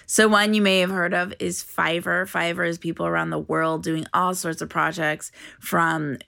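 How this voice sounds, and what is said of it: Raspy morning voice. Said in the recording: “as I wake up with my raspy voice this morning”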